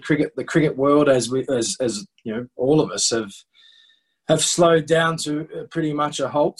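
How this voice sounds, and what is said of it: Australian accent. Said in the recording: “that accent, you're not uh, where I'm from, uh, Irish ... you're definitely not from where I live, which is in Geordie, and you're definitely not from an Oxford uh, background ... obviously I've got an Australian accent.”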